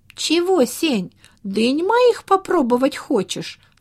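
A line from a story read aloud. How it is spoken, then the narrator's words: Laughing. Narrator (Russian): засмеялся Вова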